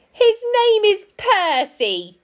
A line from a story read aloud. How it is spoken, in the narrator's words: cried the rabbit